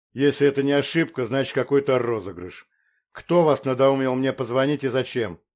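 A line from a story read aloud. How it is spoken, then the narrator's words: Deep bass voice. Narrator (Russian): пробасил сынок хирурга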